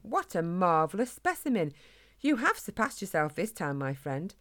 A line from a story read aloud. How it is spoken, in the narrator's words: exclaimed Spike